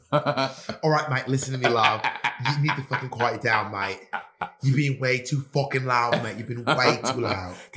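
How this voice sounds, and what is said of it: Put-on British accent. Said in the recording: “your British accent ... You do this like British accent face every time you do British accents”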